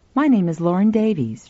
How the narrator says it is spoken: she said

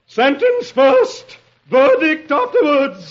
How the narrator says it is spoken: The queen thunders

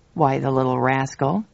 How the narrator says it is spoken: He burst into relieved laughter

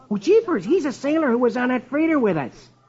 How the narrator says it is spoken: Rusty exclaims

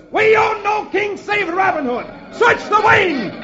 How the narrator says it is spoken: One of the sheriff's men shouts

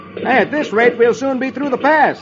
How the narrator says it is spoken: Ken says cheerfully

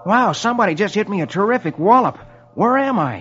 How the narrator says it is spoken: His head hurts, and he exclaims

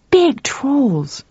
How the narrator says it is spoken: cried the boy happily

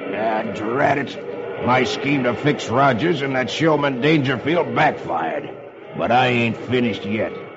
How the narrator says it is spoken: growls

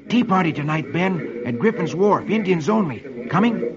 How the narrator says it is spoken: Dick whispers to him

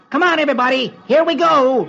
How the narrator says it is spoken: Peter shouts

